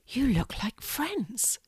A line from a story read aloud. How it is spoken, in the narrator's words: Fiona whispered